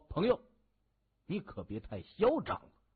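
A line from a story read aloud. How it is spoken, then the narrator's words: Cold, furious. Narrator (Chinese): 吴晓波 勃然大怒 他冷声就说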